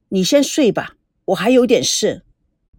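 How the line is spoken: Cold. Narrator (Chinese): 他冷冷地说

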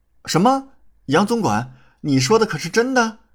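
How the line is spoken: Surprised joyful cry. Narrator (Chinese): 李准即刻回头，惊喜叫道

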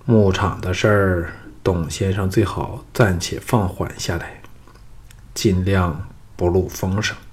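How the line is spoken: Sighing. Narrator (Chinese): 叹了口气说

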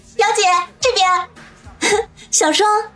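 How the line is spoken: Joyful call. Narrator (Chinese): 子双喜滋滋的叫道

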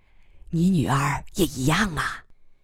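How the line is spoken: Whispering. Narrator (Chinese): 苗瑶也悄声说

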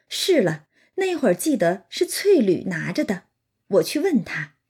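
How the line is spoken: Laughing. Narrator (Chinese): 这管家伙的媳妇，他就笑道

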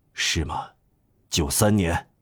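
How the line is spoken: Murmuring. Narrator (Chinese): 主教禁不住喃喃地说

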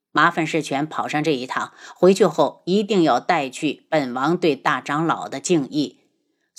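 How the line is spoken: Calm, detached. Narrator (Chinese): 轩辕志眸色幽深，淡淡的……对着宋世权道

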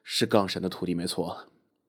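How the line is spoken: Muttering. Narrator (Chinese): 副驾驶的人喃喃道

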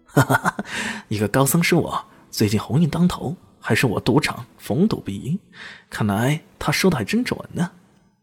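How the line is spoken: Cheerful laughing. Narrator (Chinese): 赵明奇 笑呵呵的说道

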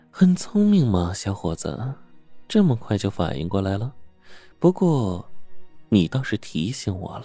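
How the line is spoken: Woman's soft laugh. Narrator (Chinese): 女人轻笑道

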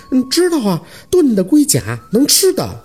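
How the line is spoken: Laughing broadly. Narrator (Chinese): 宝四大大的笑着

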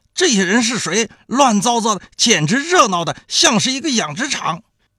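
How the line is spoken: Shouting. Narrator (Chinese): 那个警察冲着现场就喊道

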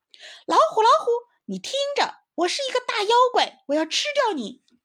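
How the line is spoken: Excited loud shout. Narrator (Chinese): 小松鼠别提有多高兴了，它大声叫了起来

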